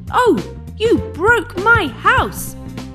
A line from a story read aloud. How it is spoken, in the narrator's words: the rabbit shouted